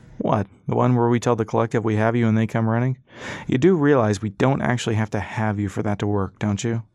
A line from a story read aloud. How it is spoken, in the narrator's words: said Four